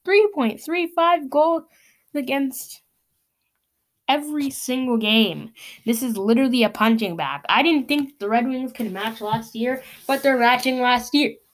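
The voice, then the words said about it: Strained, hoarse voice from yelling. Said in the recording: “I can't even talk anymore. I'm losing my voice just yelling from this”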